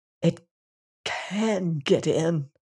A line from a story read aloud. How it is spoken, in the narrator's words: he said hoarsely